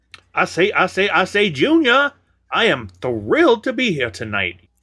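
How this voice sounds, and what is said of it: Put-on Southern accent. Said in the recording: “I've been working on a Southern accent with my time off. I hope the listeners enjoy that.”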